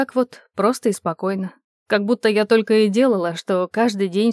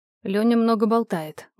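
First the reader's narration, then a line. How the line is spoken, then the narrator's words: Grumbling. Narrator (Russian): буркнула я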